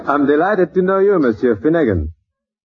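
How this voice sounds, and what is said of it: Heavy foreign accent. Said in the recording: “it's an accent. The guy's got an umlaut in his mouth.”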